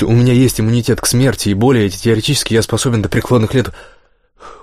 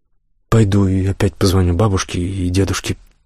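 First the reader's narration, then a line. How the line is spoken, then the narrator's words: Muttering. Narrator (Russian): пробормотала она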